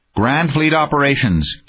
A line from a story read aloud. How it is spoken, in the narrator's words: Kinnison's thought snapped across space